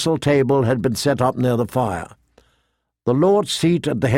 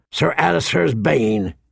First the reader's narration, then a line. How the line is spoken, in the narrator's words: he grunted